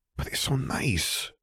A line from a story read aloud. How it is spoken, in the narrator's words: Gabby whispered